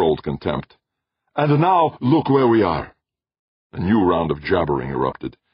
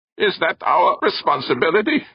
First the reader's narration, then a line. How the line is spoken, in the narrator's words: Chang croaked from behind his breathing mask